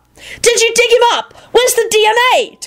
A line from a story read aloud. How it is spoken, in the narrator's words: Timothy shrieked